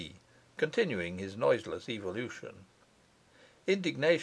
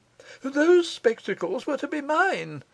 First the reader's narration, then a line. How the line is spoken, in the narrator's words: he cried